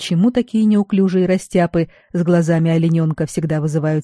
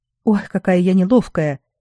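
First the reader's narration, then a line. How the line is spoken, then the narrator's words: Sighing. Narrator (Russian): Хейзи вздохнула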